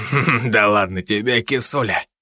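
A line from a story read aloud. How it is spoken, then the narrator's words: Sudden chuckle. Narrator (Russian): Внезапно хохотнул этот придурок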